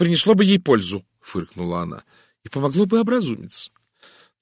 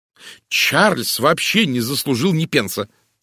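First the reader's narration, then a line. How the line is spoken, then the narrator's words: Angry declaration. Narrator (Russian): сердито заявила мисс Лоусон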